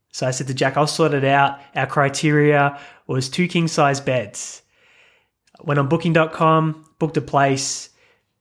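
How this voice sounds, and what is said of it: Australian accent. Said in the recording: “we've got Australian accents.”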